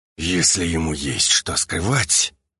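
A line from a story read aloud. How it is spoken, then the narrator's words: Through gritted teeth. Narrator (Russian): процедил Альфа сквозь зубы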